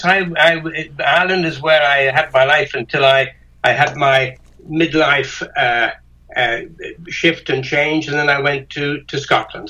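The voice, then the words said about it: Irish accent. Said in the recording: “it's a lovely accent you have... You're not Irish, though, are you?... Yes. Oh, yes.”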